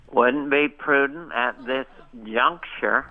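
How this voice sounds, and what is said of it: George H.W. Bush impression. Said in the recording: “your impression of uh, George H.W. Bush was legendary ... almost its own dialect”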